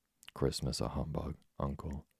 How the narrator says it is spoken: said Scrooge's nephew

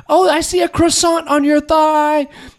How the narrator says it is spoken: he'd yell at the women

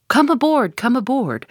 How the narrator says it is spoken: cried the gay bachelor's command

